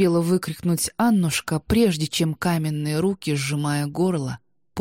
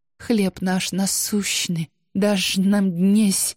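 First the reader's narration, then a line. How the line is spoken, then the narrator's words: Desperate gasping rasp. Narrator (Russian): хрипела Анна, отчаянно пытаясь глотнуть воздуха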